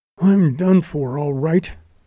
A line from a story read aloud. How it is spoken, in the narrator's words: gasped